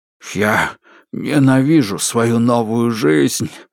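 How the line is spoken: Exhaled. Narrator (Russian): выдохнул Острый

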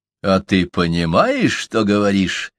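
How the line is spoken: Mocking. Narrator (Russian): насмешливо спросил Тырс

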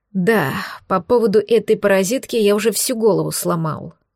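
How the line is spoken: Sighing. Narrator (Russian): вздохнул Кирилл

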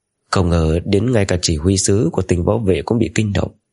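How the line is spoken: Lowered voice. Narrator (Vietnamese): hạ giọng nói

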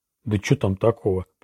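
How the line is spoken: Mumble. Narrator (Russian): пробормотал Роланд

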